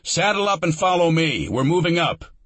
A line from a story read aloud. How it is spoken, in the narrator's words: Lieutenant Herrick shouted